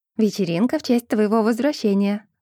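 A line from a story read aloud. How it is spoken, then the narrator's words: Plain. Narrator (Russian): сказала Николь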